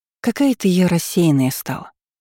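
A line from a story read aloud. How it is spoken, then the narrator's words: Sighing woman. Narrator (Russian): вздохнула подруга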